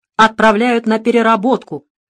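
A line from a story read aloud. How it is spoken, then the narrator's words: Old man, angry. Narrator (Russian): зло добавил старик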